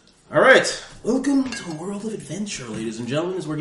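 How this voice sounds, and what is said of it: Usual voice. Nothing is said of it.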